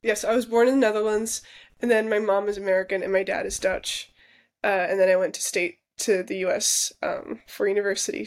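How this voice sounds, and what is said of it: American English accent. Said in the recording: “Your accent is very American when you're speaking English ... this American accent ... that's not a Dutch accent”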